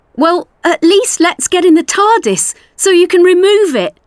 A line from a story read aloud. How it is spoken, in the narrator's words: Ace pleaded